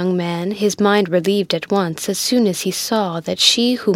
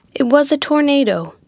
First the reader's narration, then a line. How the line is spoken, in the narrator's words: interrupted Mulford eagerly